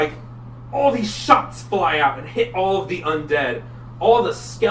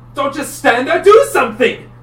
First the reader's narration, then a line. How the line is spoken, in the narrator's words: shouts at the Oni